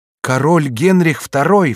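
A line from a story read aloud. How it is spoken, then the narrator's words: Sudden cry. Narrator (Russian): вскрикнула Алоиза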